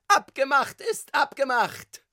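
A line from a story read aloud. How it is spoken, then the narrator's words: Shouting tenor voice. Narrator (German): schrie eine wohlbekannte Stimme, Tonlage Tenor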